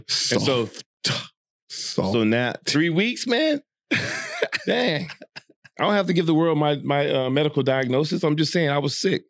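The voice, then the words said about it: Slightly nasal, sick-sounding voice. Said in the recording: “Everybody knows I'm still a little sick. And so, yeah, you can hear it in my voice. It's a little nasal”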